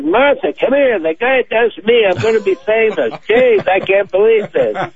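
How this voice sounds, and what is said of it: Lisping W.C. Fields-like voice. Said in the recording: “He had a lisp and a bulbous nose. He looked like W.C. Fields.”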